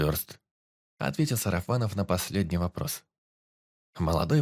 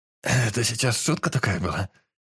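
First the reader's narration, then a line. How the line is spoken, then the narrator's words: Hoarse wheeze. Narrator (Russian): просипел он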